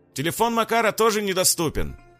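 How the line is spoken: Shouted. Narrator (Russian): вновь крикнул Наталья Илья

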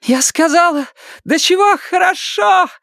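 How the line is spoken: Shouted. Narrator (Russian): выкрикнула Дейна

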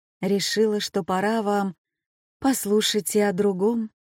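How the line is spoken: Even, distant voice. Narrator (Russian): проговорила ровным голосом, донесшимся из той самой дали

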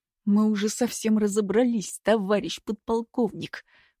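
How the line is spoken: Angry hiss through teeth. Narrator (Russian): прошипел сквозь зубы Руденчик, разозленный неожиданным вторжением

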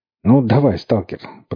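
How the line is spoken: Encouraging. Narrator (Russian): подбодрил он Бергамота

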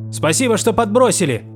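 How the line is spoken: Shouted after someone. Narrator (Russian): крикнул вслед Лангер

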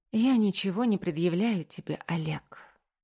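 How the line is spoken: Weary heavy sigh. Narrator (Russian): тяжело вздохнув, устало произношу я

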